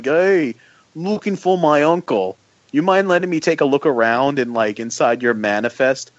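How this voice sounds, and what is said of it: Exaggerated put-on Jersey accent. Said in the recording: “with, like, an exaggerated, like, Jersey accent”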